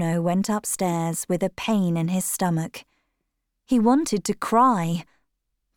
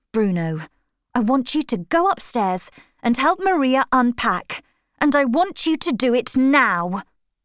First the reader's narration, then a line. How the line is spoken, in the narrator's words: snapped his mother